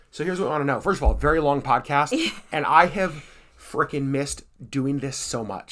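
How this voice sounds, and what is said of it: Hoarse voice. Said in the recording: “we're both coughing and hoarse”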